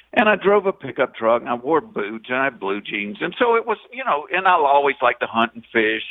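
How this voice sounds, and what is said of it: Southern Georgia accent. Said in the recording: “people tell me to lose my accent ... at least a quarter of the country talks this way ... a redneck from Georgia”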